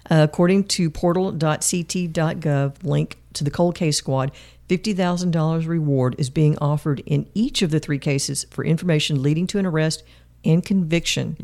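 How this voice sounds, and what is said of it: Hoarse, strained voice. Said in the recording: “My throat is really, I'm really hoarse.”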